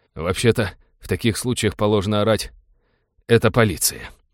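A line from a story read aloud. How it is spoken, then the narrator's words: Tired reproach. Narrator (Russian): устало упрекнул капитан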